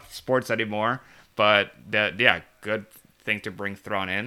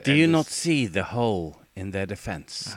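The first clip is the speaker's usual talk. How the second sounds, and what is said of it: Imitates a fictional character's voice. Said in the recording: “like Thrawn would say ... good impression.”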